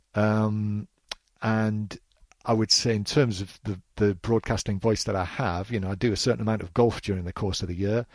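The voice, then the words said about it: Softened northeast English accent. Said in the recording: “my accent was a little stronger ... naturally softened my accent over the course of the years ... people still pick me out as a commentator from the northeast of England”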